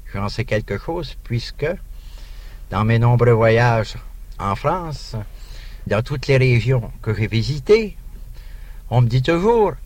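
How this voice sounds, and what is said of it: Canadian French accent. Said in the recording (French): “il y a un accent canadien d'une façon générale ... nous reconnaissons votre accent canadien”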